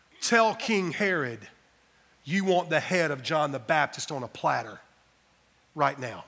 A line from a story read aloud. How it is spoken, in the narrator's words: whispers in her ear